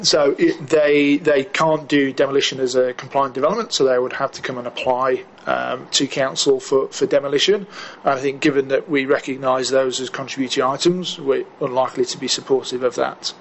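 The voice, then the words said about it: English accent. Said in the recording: “that's your English accent”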